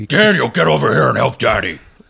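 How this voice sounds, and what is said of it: Yelling in a monster voice. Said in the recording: “that's ... monster voice... That's her yelling”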